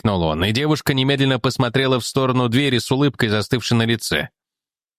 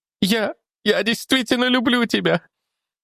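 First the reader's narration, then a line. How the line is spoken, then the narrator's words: Sobbing. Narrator (Russian): зарыдала Селени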